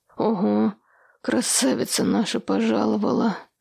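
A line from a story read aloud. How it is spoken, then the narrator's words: Hoarse rasp. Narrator (Russian): прохрипел он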